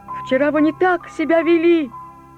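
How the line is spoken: Shouting. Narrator (Russian): кричал он

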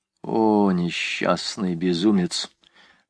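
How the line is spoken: Muttering. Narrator (Russian): пробормотал Куактье

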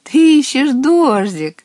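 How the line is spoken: Laughing water spirit. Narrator (Russian): рассмеялся отец водяной

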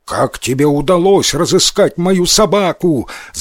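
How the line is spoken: Shout. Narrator (Russian): закричал он

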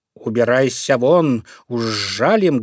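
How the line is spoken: Loud buzzing. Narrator (Russian): громко зажужжали они

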